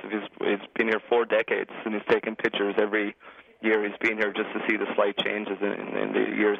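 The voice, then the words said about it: Irish accent. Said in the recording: “I detect a bit of an accent there ... I'm from Ireland.”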